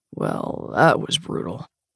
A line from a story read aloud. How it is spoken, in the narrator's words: he says with a rough sigh